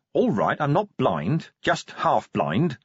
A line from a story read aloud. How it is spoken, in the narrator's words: Vimes snapped